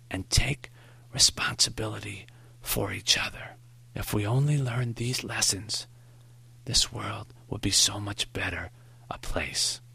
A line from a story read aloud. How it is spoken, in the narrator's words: Maury whispered